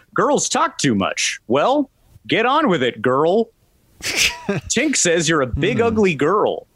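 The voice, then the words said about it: Peter Pan cartoon character voice. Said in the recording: “could you just do the lines from the Disney cartoon ... You just did a Pan impression.”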